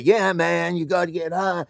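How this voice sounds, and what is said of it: Tommy Chong impression. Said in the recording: “good Tommy Chong impression? ... It's fine.”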